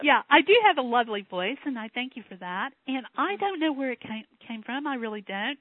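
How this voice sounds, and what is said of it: Distinctive regional accent. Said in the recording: “that incredible accent comes from that you have ... It's an adorable accent, I think.”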